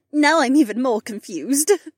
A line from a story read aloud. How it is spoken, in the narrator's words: she giggled